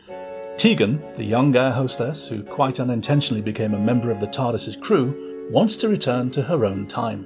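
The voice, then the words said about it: Formal BBC announcer voice. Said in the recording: “In my best BBC announcer voice.”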